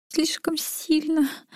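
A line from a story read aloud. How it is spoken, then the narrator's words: Whimpering. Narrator (Russian): захныкала Саша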